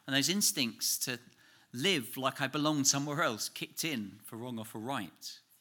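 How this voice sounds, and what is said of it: Distinctly English accent. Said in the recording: “my accent became more strongly and distinctly English than it's ever been in England”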